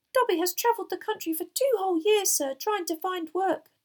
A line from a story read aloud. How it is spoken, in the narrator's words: Dobby squeaked